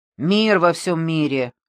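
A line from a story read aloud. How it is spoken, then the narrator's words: Snapping retort. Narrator (Russian): огрызнулся Мазукта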